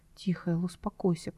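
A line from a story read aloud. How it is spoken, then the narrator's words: Whisper. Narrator (Russian): прошептал он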